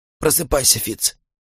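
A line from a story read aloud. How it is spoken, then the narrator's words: Hoarse whisper. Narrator (Russian): прошептал он хрипло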